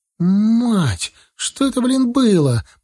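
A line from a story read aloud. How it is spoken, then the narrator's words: Moaning girl. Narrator (Russian): простонала девушка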